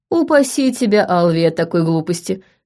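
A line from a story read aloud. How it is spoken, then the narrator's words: Laughing chuckle. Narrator (Russian): хохотнул Тим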